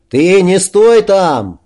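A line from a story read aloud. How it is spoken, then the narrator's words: Anxious shout. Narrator (Russian): волнуясь, крикнул пекар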